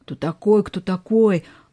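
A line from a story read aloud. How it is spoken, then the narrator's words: Angry mocking, spitting. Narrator (Russian): Отплевывая попавшую в рот траву и землю, зло передразнил Лёшка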